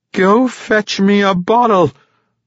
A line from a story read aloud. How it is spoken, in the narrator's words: Ivorbreen yelled